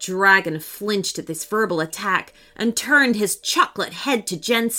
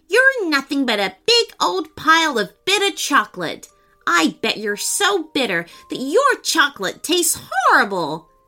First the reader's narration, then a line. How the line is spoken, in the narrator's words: Jumping up to his feet, he shouted